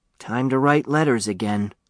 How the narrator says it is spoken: said Huey with a sigh

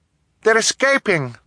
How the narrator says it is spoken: Violet cried

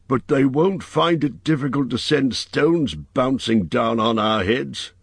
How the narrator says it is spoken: grumbled Pomba

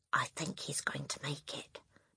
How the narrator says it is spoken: Matilda whispered

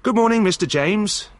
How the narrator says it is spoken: said Peter cheerfully

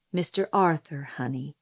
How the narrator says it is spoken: said Atticus, gently correcting me

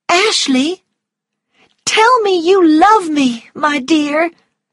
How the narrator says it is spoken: she cried

